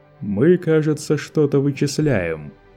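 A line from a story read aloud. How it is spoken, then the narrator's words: Mocking question. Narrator (Russian): насмешливо поинтересовался Лето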